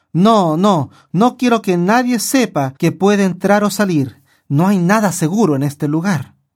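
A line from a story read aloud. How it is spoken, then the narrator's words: Fearful exclamation. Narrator (Spanish): Con temor en su voz, el guardia exclamó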